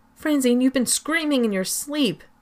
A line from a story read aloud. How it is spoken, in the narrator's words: Jenny cried